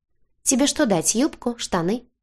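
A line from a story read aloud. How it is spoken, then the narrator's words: Casual, matter-of-fact question. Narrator (Russian): Будничным тоном поинтересовался он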